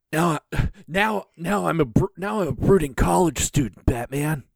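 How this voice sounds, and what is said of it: Slightly lower Robin character voice. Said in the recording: “I love your Robin voice... It's the same voice, but it's slightly lower.”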